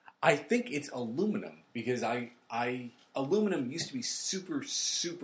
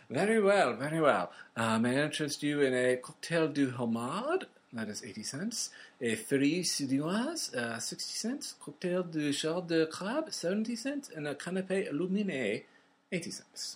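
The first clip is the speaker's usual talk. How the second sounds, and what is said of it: Posh plummy accent. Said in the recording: “I'm going to be done with my plum accent.”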